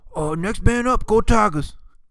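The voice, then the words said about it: Imitated Louisiana Bayou accent. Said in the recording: “He's got that Bayou accent. He's from Louisiana.”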